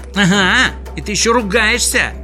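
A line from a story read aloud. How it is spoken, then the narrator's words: Indignant shout. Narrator (Russian): возмущенно закричал Сниф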